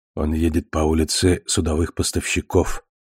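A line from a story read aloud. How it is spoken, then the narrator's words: Quiet. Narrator (Russian): тихо сказала приблизившаяся тень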